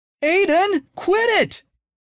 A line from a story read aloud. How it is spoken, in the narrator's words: yelled Cindy